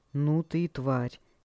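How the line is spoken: Hoarse voice. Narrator (Russian): хриплым голосом проговорил

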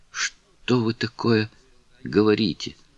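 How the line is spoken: Whisper. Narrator (Russian): прошептала Кларинда

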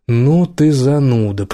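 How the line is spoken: Drawling. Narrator (Russian): протянул Убер

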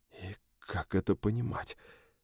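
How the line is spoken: Whisper. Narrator (Russian): прошептал я

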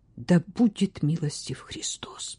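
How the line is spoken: Frightened tearful whisper. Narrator (Russian): шепот Сюзан, плачущий от испуга

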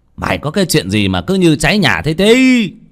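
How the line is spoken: Irritated old man's shout. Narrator (Vietnamese): Cụ Lý ngồi nghe tiếng thằng Tí gấp gáp thì quát lên

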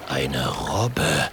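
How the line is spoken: Whisper. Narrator (German): flüstert er

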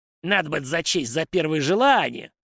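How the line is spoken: Forest spirit grumbling. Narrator (Russian): проворчал леший

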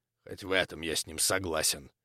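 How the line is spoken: Joyless snort. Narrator (Russian): невесело хмыкнул учитель

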